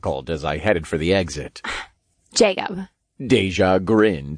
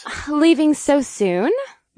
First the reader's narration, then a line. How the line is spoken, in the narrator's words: Deja purred